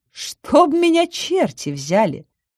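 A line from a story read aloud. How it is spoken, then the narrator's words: Thoughtful. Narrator (Russian): задумчиво сказала Веста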